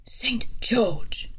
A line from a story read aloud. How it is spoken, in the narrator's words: said in a voice that rang with authority, though it was no more than a whisper